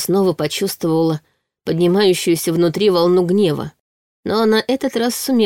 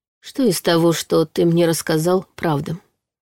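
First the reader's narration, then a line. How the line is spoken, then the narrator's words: Almost calm question. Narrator (Russian): почти спокойно спросила она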